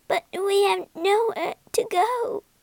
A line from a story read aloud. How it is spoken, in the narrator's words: she sobbed